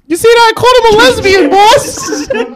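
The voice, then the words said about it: Put-on New York accent. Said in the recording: “I grew a New York accent”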